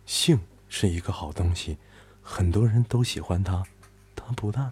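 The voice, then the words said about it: Sweet female radio host voice. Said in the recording (Chinese): “主持人美眉甜美的声音说”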